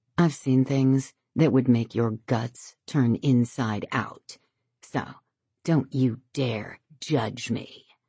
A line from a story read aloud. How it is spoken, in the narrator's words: She ... says, her voice icy